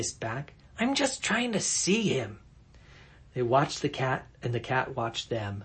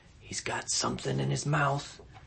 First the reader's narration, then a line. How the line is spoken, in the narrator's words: Tom whispered